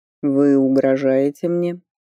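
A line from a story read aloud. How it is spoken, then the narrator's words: Skeptical question. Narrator (Russian): скептически вопросил Норберг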